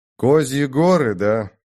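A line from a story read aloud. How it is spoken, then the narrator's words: Gloomy question. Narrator (Russian): мрачно спросил Олег у Льера Нурлана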